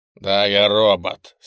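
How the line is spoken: Angry. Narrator (Russian): сердито ответил Макриди

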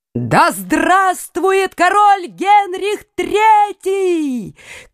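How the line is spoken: Shout. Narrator (Russian): крикнула Екатерина

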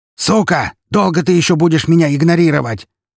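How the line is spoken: Furious roaring yell. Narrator (Russian): ревущим от бешенства голосом заорал Лебедев

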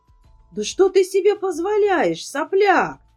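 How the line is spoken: Roar. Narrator (Russian): взревел шериф

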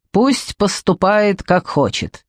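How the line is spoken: Displeased grumbling. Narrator (Russian): недовольно проворчал Драгомир

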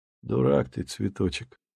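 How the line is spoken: Calm. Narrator (Russian): спокойно сказал Чижик

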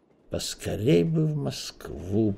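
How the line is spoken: Wistful mutter. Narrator (Russian): пробормотал Эраст Петрович, с тоской

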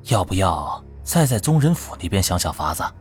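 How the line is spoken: Advisor whispering. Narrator (Chinese): 玉木成的幕僚悄声道

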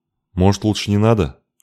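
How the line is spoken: Muffled question. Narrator (Russian): глухим голосом спросил Халик

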